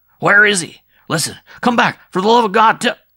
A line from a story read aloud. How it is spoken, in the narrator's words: the father shouted